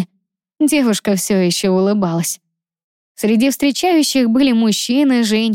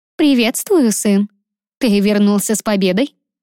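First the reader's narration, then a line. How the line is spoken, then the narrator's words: Dry question. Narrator (Russian): сухо спросила мать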